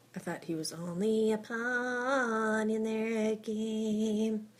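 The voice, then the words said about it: Poor nasal imitation of a singer. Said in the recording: “worst Bob Dylan impression I've ever heard ... really super nasally”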